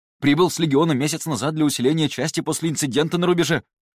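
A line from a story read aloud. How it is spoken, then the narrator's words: Rapid chatter. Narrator (Russian): Затараторил он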